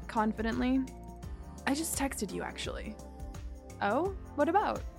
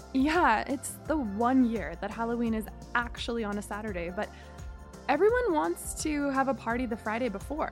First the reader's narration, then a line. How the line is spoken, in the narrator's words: I laughed